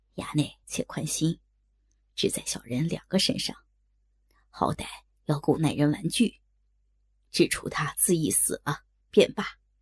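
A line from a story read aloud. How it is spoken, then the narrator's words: Whispered in ear. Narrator (Chinese): 也是贴耳低声道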